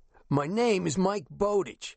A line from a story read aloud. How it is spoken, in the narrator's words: the warden answered in a tough guy voice